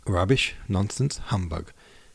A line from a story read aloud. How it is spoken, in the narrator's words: exclaimed Nicholas